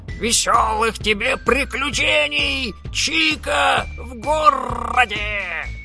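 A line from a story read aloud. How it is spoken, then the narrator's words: Sad parrot, full-throated shout. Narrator (Russian): огорченный расставанием попугай Ара вдогонку во все горло прокричал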